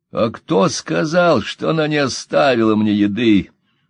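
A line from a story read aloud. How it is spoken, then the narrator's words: Question, laughing louder. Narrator (Russian): спросил и рассмеялся еще громче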